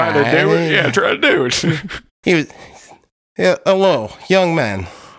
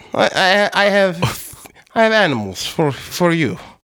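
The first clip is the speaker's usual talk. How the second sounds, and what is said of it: Put-on European accent. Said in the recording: “a man with a European accent says... That's a European accent?”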